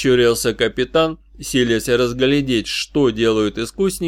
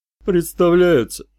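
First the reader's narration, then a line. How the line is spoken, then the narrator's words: Snort. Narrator (Russian): хмыкнул Эрвис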